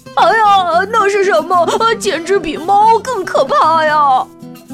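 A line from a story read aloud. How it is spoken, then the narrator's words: Shrieking. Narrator (Chinese): 乡下老鼠尖叫道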